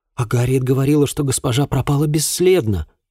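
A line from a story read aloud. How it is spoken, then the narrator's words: Exclaimed. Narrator (Russian): воскликнула Рэйчел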